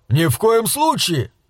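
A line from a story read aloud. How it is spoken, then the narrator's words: Shrieking. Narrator (Russian): взвизгнул Пакер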